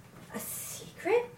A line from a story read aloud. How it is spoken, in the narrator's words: whispered